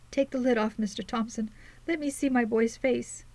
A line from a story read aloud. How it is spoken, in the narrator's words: wailed the elder woman, between her sobs